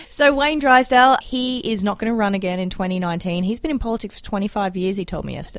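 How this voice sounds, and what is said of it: Australian accent. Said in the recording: “It's my accent. We say it differently in Australia.”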